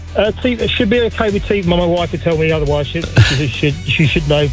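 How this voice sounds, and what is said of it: English Kent accent. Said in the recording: “25 years and the Kent accent is still true. I can hear it.”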